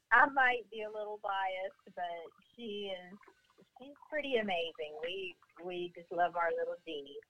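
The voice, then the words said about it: Southern American accent. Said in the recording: “You have the cutest accent. I don't get to talk to ... people from the ... South enough”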